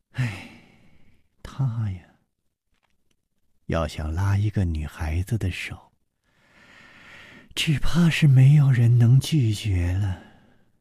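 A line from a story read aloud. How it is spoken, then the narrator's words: Sighing. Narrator (Chinese): 叹道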